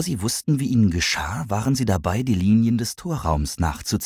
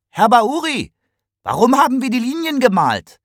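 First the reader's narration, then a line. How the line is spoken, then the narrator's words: Calling out. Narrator (German): Kigani rief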